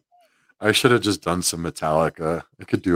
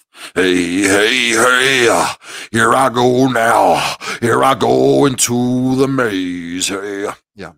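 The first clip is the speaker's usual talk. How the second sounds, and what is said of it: Imitates a metal singer's voice. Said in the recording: “do a good James Hetfield impression,... this is James Hetfield. If he was in the movie Labyrinth.”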